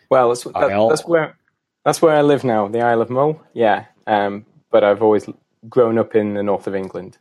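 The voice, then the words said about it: Northern English accent. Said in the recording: “I'm noticing a little accent here ... it's an English accent, not a proper Scottish accent ... it's a proper English accent”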